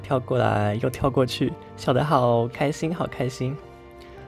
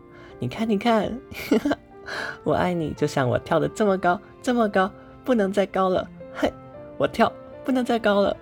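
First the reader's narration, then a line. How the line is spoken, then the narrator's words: Laughing little rabbit. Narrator (Chinese): 小兔子笑起来了，他说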